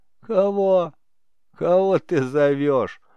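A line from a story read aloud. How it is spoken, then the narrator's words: Laughing. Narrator (Russian): Он не переставал смеяться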